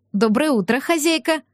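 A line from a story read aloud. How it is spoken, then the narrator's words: Cheerful unembarrassed greeting. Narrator (Russian): Радостно поздоровалась девушка, кажется, ни капли не смущенная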